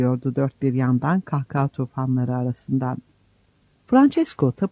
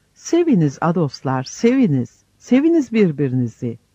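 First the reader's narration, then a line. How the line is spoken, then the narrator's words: Shouting loudly while dancing. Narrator (Turkish): derken oynaya sıçraya, avazı çıktığı kadar bağırarak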